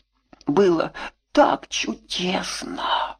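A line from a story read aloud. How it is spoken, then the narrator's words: Whispering. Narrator (Russian): шептала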